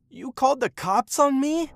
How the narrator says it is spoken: he screamed

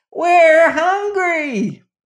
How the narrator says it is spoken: yelled the Scoodlers

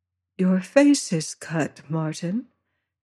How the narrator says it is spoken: said she at last very softly

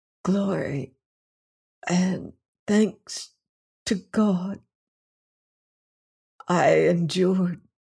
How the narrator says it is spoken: he whispered

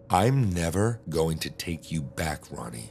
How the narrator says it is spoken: I said

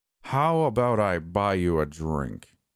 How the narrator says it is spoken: He drawled

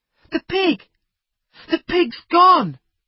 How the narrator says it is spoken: Jack cried

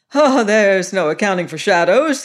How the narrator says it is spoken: he said, and he laughed again

